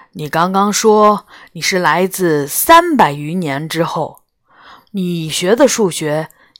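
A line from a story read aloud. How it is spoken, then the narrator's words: Sighing question. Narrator (Chinese): 皇帝叹了口气，又问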